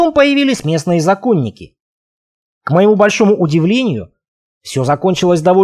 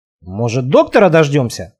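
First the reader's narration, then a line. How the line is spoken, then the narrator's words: Wry snort. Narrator (Russian): хмыкнул Марк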